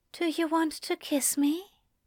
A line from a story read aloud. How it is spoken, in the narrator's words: the angel asked, his breath a whisper on Crowley's lips